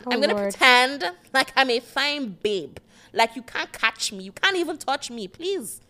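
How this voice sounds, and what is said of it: Put-on white girl voice. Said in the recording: “decided that this is now her week to do the white girl voice”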